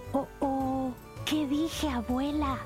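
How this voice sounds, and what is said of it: Whispering. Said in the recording (Spanish): “susurró a su abuelita”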